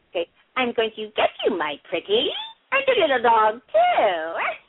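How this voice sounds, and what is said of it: Wicked witch character voice. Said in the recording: “my witch imitation, the witch of the West ... her impression of the evil witch”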